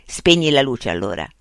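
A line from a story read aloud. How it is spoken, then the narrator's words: Curt, dry. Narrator (Italian): disse seccamente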